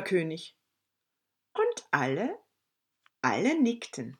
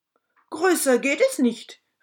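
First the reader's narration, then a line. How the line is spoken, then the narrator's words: King calling out. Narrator (German): rief der König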